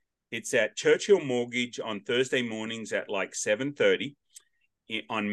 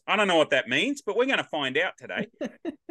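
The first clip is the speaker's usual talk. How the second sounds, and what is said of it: Put-on Australian accent. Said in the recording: “that sounded really Australian”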